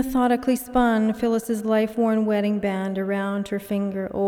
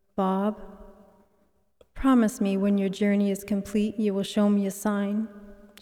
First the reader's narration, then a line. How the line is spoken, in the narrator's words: she said